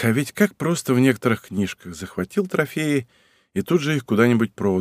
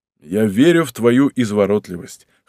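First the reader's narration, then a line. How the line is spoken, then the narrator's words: Snort while biting food. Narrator (Russian): хмыкнул он, впиваясь зубами в бутерброд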